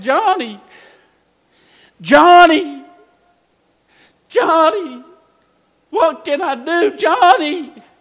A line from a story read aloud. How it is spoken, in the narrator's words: he started screaming out